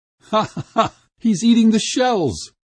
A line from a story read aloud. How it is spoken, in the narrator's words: laughed the crowd